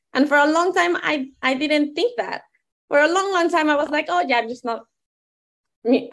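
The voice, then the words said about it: Non-native English accent. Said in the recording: “embrace my accent ... I'm not from here”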